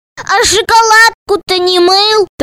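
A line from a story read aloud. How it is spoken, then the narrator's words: Triumphant shout. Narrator (Russian): торжествующе закричал Медов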